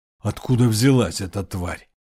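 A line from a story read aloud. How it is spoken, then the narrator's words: Growled. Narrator (Russian): Сзади послышалось рычание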